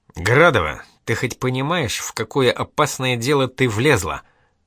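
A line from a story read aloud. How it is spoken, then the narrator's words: Angry question. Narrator (Russian): зло спросил Эдик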